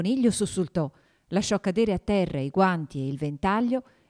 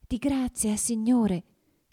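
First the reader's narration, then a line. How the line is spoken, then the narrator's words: Trembling, subdued voice. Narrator (Italian): gli disse con voce tremula e sommessa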